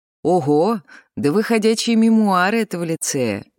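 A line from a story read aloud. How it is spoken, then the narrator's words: Cheerful exclamation. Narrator (Russian): весело воскликнула Луиза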